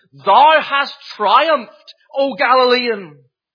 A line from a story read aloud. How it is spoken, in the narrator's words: the final pagan Caesar of Rome, Julian the Apostate, is said to have cried out on his deathbed